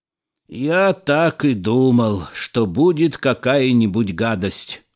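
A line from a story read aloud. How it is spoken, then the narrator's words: Despairing groan. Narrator (Russian): в отчаянии застонал хиромант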